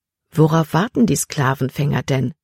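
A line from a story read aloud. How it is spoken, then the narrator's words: Plain question. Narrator (German): fragte Libby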